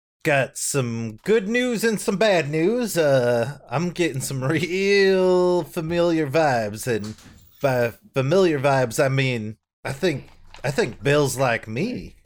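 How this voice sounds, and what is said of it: Inconsistent put-on character accent. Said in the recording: “inconsistent with his accent? ... Clem has actually been relatively consistent with his inconsistency.”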